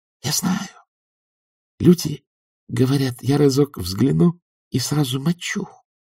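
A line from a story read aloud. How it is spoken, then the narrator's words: Whispering. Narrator (Russian): прошептал По-Эл-Де-Ник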